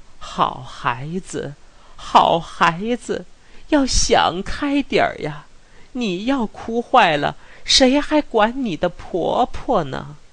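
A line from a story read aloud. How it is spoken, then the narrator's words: Tearful coaxing. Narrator (Chinese): 四大妈叽咕着两只哭红了的眼，劝说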